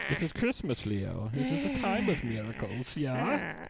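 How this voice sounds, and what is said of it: Sophisticated German villain, British accent. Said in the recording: “I am German. I'm so sophisticated. I am a German guy with a British accent.”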